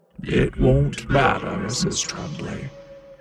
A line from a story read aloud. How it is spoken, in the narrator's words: he growled